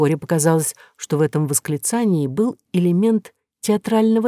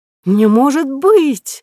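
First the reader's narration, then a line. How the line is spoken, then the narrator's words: Sudden exclamation, grandmother. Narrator (Russian): вдруг воскликнула бабушка из семейства Романовых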